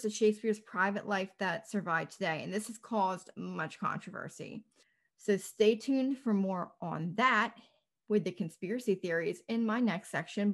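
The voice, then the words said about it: Hoarse, fading voice. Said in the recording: “I'm kind of losing my voice. The allergies here are horrible.”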